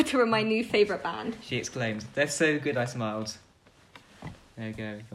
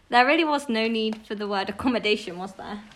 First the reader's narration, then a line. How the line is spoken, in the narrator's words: Iris laughed